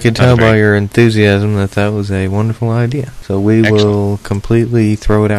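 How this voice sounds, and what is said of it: Usual voice. Nothing is said of it.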